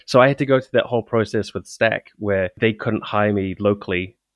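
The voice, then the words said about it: Non-American English accent. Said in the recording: “for those of you who can't tell by my accent, I'm not American”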